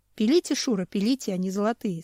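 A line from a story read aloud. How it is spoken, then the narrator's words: Plain. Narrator (Russian): сказал Семен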